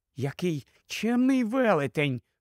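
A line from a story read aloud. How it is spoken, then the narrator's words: Whisper. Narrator (Ukrainian): прошепотіла Люсі панові Тумносу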